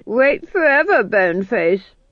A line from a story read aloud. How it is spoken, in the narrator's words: said the Duke triumphantly